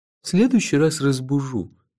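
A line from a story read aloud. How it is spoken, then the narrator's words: Gloomy promise. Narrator (Russian): мрачно пообещал Кофа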